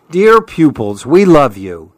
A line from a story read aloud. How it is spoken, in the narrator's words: the animals exclaim